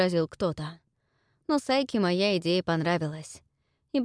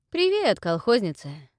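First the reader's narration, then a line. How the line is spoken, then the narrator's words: Cheerful, relaxed greeting. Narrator (Russian): Весело и непринужденно, поприветствовал он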